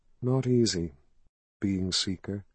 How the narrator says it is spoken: she said softly

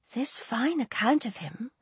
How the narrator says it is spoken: whispered her aunt

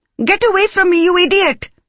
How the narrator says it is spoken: She shrieked suddenly

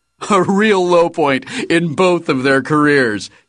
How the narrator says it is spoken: he said, laughing

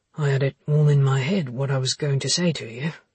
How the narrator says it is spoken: said Luke, sighing

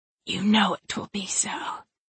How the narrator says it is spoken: she hissed at me

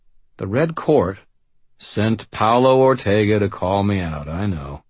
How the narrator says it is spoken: she sighed

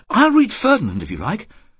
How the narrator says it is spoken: Sarah said, in a clear, excited voice

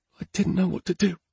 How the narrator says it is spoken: said Irene softly, her voice filled with guilt

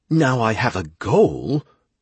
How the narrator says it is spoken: Gira said, a bit angrily

